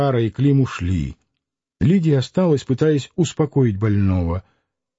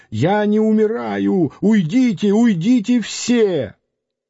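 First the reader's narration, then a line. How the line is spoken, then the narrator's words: Shouted. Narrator (Russian): закричал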